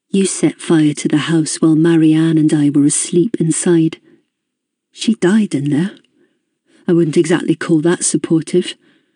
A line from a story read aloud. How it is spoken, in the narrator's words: said, trying my best to keep my voice calm, not entirely succeeding